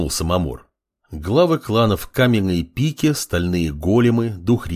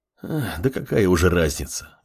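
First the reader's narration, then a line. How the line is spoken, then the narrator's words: Sighing. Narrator (Russian): вздохнула Кимура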